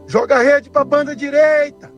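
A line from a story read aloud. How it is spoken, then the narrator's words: Shouting. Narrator (Portuguese): Jesus grita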